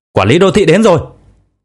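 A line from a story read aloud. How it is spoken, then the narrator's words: Sudden alarmed shout. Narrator (Vietnamese): Bỗng nhiên có người hét lên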